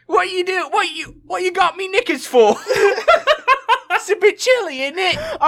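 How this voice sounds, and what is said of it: Put-on British accent. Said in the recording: “I'm gonna put on my best British accent for Garnet.”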